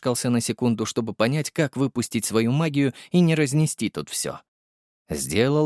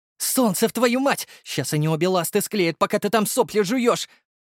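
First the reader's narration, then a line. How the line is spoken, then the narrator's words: Harsh bark. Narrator (Russian): гаркнула Дарья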